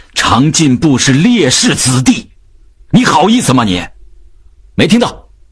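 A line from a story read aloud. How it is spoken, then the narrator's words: Shouted. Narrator (Chinese): 秉义吼道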